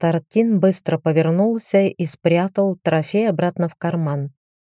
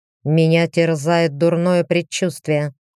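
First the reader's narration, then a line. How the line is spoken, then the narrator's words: Grumbling. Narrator (Russian): проворчал лорд Артин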